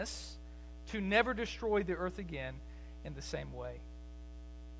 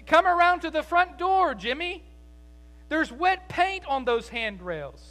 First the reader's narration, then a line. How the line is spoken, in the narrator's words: she shouted out to him